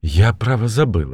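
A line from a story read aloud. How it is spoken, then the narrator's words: Timid woman. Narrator (Russian): отвечала Настенька, робко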